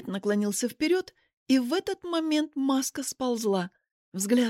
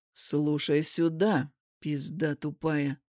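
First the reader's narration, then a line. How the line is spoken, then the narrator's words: Quiet, menacing. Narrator (Russian): сказал он тихо, зловеще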